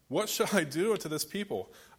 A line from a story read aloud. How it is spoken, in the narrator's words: Moses cried to the Lord, saying